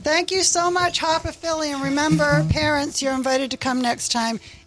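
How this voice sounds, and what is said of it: Transatlantic accent. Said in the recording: “got like a transatlantic accent. ... We love the accent.”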